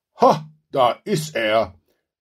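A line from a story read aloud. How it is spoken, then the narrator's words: Glad exclamation. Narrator (German): rief Krishan erfreut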